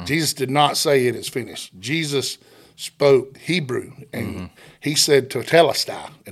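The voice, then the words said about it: Southern Georgia accent. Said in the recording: “probably a Southern Georgia accent”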